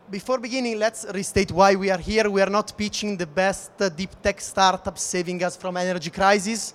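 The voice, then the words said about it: Non-native English accent. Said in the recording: “from my delicate accent, you may guess that I'm not English, nor German”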